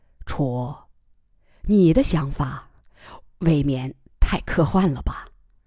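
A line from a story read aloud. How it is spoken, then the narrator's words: Low voice, laughing. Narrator (Chinese): 楚天乐笑着又低声说了几句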